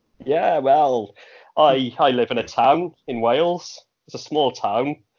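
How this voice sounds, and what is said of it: Welsh accent. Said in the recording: “I've got a Welsh accent”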